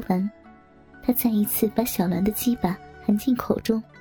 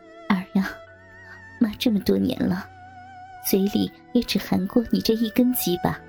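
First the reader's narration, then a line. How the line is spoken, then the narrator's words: Smiling. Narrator (Chinese): 笑道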